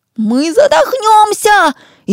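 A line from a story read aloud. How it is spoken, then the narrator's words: Frightened yell. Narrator (Russian): испуганно завопил Ишмат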